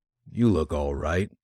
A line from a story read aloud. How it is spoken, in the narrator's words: McGill vouchsafed dryly